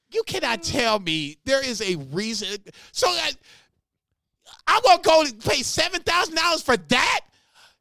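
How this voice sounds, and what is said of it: Heated, yelling rant. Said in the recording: “he's heating up. ... I want you to keep yelling.”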